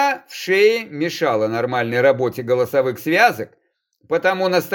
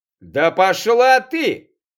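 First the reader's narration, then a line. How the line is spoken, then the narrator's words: Uncontrolled shout. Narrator (Russian): Теряя над собой контроль, выкрикнул геолог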